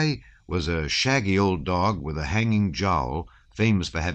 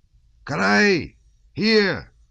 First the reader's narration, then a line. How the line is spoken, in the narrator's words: he shouted